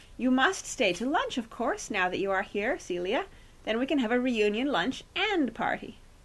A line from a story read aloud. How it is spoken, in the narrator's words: Bagthorpe tried to create a more cordial atmosphere by exclaiming